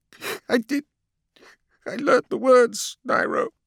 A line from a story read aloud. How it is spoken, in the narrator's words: Lorgar said, choking out the words between sobs